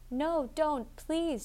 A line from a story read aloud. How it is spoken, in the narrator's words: she cried